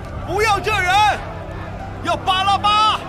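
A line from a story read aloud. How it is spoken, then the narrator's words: Crowd shouting. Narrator (Chinese): 他们又喊着说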